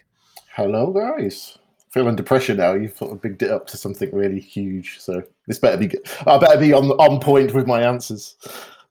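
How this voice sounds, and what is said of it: British accent with Canadian hybrid. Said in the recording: “you've been working on your British accent ... I've got a terrible hybrid now with some words that I say that are a little bit too Canadian”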